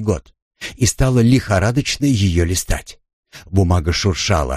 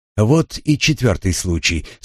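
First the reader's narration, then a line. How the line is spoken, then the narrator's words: Plain. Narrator (Russian): сказала Люси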